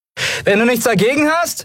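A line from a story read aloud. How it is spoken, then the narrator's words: Calling out, spitting dust. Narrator (German): rief Endriel und spuckte Staub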